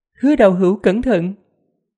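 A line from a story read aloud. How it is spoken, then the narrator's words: Smiling, calm woman. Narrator (Vietnamese): Phụ nhân mặc cung trang mỉm cười, mặc dù đang trong đại chiến nhưng nàng vẫn hết sức thông dung, nói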